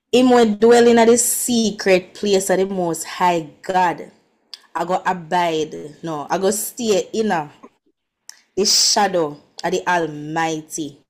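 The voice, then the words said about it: Jamaican patois accent. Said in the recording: “choose any accent ... let me try in patois first”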